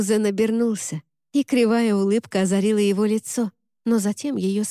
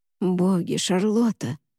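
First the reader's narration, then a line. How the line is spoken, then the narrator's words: Intimate muffled whisper. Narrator (Russian): прошептал он ей в волосы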